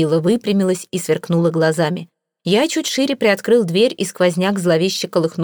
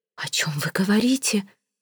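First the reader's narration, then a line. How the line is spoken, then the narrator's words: Whispering. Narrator (Russian): прошептала миссис Флип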